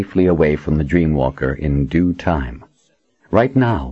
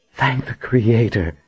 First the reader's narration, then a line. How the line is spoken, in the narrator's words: Verna said with a sigh